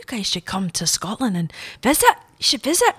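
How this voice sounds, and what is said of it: Put-on Scottish accent. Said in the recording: “That's not his accent. Doesn't sound like that at all ... That sounds Scottish.”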